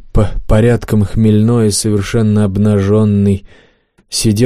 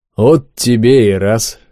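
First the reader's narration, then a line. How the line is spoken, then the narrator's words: Chuckling. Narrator (Russian): хохотнул он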